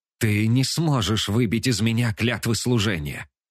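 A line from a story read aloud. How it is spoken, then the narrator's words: Hissing right in face. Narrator (Russian): Раздается шипение прямо мне в лицо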